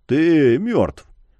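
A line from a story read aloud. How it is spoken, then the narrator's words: Gruff mutter. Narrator (Russian): буркнул ледорез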